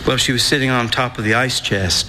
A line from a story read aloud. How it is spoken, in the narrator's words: I said